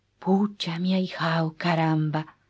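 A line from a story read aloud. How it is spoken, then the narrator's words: Soft whisper, not waking sleeper. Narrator (Spanish): repitió en un susurro, como se le habla a un dormido al que, sin embargo, no se quiere despertar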